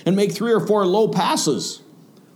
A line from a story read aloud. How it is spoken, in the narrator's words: yelled